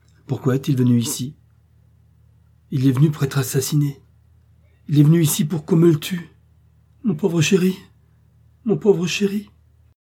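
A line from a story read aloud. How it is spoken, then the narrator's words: Sobbing. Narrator (French): dit Mme Packer en sanglotant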